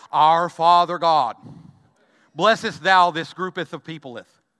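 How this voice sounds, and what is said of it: Mock-solemn old-fashioned prayer voice. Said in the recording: “put on a prayer voice ... all of a sudden have we shifted into Elizabethan English”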